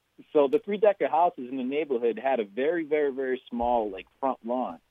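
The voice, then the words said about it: Regional accent. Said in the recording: “the accent”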